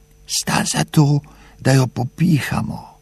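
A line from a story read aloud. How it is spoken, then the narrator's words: Leaning close, whispering. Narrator (Slovenian): Sklonil se je k palčkama in jima šepnil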